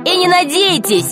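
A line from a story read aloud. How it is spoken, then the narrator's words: Shouted. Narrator (Russian): крикнул Пашка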